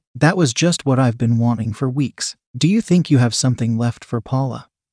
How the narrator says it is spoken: asked

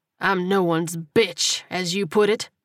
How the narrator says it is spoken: Marco snapped

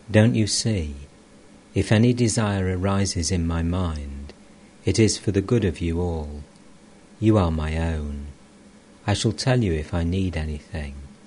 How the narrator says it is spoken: Master, tenderly

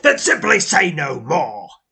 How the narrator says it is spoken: he snaps

